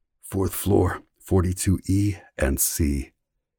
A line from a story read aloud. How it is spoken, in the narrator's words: He whispered